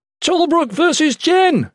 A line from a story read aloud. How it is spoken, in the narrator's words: someone shouted from the commoner side of the crowd